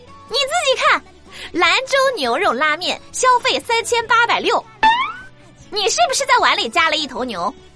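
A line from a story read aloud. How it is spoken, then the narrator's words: Angry shouting. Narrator (Chinese): 大胖…愤怒的大喊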